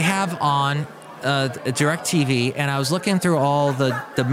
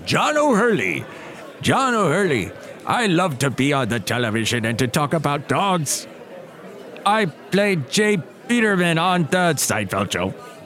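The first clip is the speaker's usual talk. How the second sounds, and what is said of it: Imitates another person's voice. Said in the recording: “That's not my best impression”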